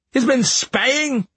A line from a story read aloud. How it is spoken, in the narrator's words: the captain cried